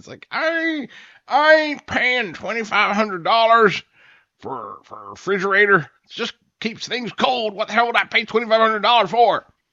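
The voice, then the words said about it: Fake accent imitating a father. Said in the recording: “I became my father in an instance ... that's my fake father accent.”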